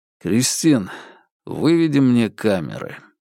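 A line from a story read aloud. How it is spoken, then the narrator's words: Tired. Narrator (Russian): устало сказал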